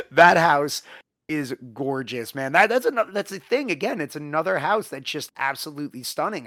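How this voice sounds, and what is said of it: Hoarse, worn-out voice. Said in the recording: “that's why my voice is shot”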